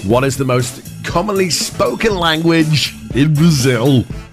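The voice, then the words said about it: Imitates another person's voice. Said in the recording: “Why are you talking like that? ... my Jeremy Clarkson impression”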